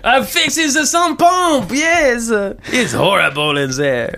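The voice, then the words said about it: Put-on French accent. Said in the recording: “I don't know how to do another French accent. ... Besides the French plumber.”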